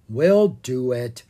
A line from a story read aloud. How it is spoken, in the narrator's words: Owen said with a sigh